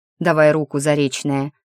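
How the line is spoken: Mocking. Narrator (Russian): говорит насмешливо

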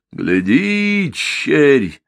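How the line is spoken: Thundering. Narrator (Russian): прогремела

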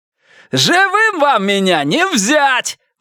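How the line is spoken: Ecstatic shout. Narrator (Russian): выкрикнул он, опьянев от восторга

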